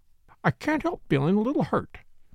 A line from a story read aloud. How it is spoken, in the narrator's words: she murmured